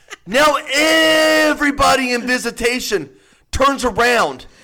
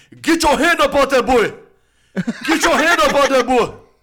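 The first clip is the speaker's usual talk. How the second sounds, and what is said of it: Strong African accent. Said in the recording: “a very strong African accent”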